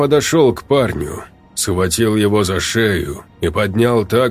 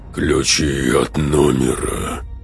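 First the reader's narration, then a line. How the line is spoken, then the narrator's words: Hoarse, beastly demanding voice. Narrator (Russian): потребовал хриплый, почти звериный голос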